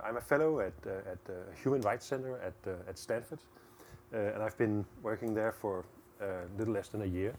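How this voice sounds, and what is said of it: Danish accent. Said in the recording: “I'm Danish, so that's the accent.”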